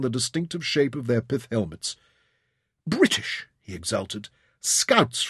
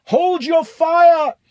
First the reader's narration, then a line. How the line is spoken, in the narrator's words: he yelled